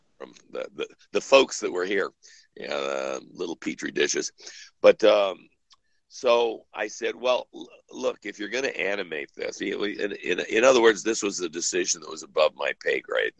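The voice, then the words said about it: Voice sounds congested from cold. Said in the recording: “I've got a bit of a cold.”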